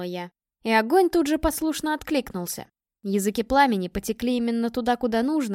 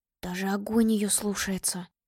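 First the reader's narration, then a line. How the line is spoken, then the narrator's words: Barely audible mutter. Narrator (Russian): едва слышно пробормотал Зуба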